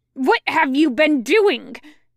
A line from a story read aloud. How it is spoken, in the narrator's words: Jiangcheng screeches